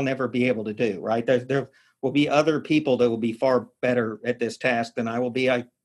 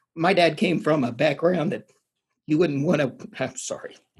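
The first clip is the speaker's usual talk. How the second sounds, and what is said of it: Choked-up, emotional voice. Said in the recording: “going to get choked up”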